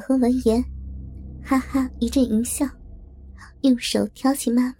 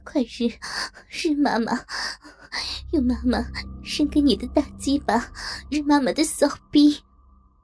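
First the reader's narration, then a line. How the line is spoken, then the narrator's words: Breathy, slurred. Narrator (Chinese): 她娇喘着，语音含糊的说道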